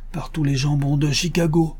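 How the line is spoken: Exclaimed. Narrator (French): s'écria Joe Bevins, le petit caporal

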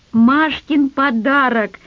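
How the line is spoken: Yelling. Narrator (Russian): завопил Дениска

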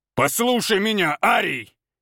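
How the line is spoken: Growl. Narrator (Russian): зарычал Валентин

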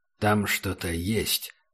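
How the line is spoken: Quiet. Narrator (Russian): сказал Убер негромко

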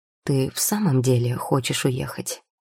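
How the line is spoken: Plain. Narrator (Russian): спросил мужчина

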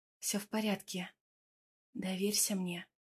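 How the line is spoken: Whisper. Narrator (Russian): шепнула я

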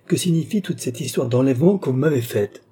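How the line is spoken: Princess exclaiming. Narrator (French): s'écria la princesse

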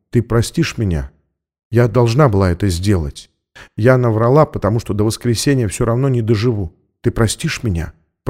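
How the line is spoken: Whisper. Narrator (Russian): прошептала она

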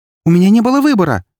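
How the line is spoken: Exclaimed. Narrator (Russian): воскликнула Эри

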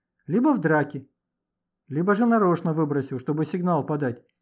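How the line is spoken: Inspired exclamation. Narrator (Russian): вдохновенно воскликнул Леха

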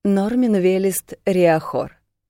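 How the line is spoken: Short laugh. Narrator (Russian): хохотнул сидящий рядом с Дасом парень

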